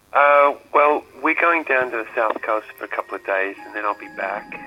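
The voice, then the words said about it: Australian accent. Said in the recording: “You've still got an Australian accent.”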